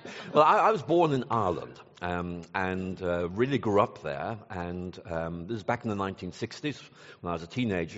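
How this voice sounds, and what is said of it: Non-Texan foreign accent. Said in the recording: “I can tell by your accent you were not born in Lubbock, Texas”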